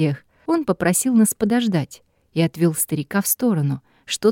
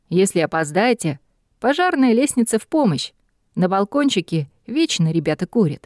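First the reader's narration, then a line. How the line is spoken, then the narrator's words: Amused snort. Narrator (Russian): хмыкнул Алекс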